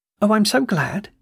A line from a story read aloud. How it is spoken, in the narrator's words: she cried